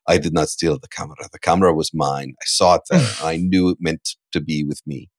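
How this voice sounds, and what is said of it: Weak Werner Herzog impression. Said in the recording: “That's the worst Werner Herzog impression I've ever done. I'm usually stronger. It's a weak point.”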